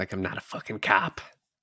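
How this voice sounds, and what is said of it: Tom Cruise impression. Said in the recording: “do a Tom Cruise impression”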